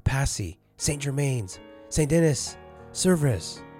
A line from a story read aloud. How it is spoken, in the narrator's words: I cried